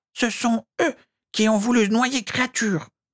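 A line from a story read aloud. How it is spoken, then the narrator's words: Elf moaning. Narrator (French): gémit l'elfe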